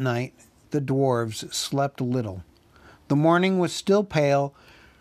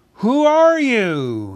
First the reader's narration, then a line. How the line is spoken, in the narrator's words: he called in a very loud voice